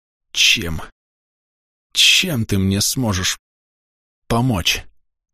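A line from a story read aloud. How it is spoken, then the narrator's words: Through gritted teeth. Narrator (Russian): сквозь зубы спросил я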